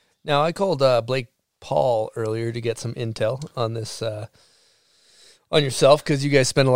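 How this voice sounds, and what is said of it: Usual voice. Nothing is said of it.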